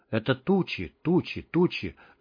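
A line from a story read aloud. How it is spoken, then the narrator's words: Barely audible mutter. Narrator (Russian): забормотал он едва слышно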